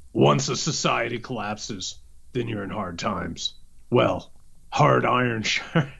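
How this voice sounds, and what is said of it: Weird put-on reading voice. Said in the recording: “in this weird voice”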